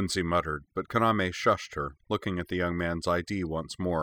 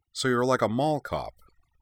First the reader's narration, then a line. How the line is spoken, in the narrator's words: she said